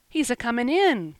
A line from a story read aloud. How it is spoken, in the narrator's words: cried Davy in chorus